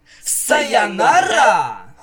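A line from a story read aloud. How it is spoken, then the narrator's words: Surprised shout in chorus. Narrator (Russian): Хором удивленно выкрикнули Спайк и Миша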